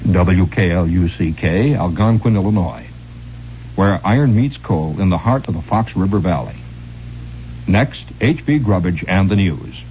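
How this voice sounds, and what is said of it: Radio announcer voice. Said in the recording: “my announcer voice”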